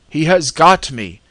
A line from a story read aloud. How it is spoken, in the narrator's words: shouted in mortal terror